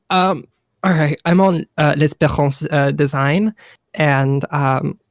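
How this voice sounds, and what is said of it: Put-on French accent. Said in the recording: “showing off their fucking French accent again”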